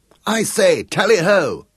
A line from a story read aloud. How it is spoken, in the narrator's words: cried Gareth